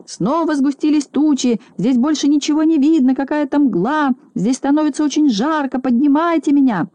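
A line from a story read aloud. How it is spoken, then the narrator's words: Shouting. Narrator (Russian): А Стекляшкин уже кричал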